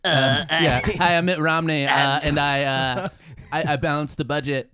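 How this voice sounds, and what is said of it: Imitates another person's voice. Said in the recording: “this is my Romney impression”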